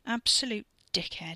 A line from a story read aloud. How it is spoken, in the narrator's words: he muttered thickly into his cupped palm